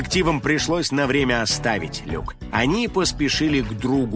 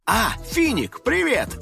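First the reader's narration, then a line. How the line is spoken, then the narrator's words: Joyful greeting. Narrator (Russian): радостно встретил друга Ози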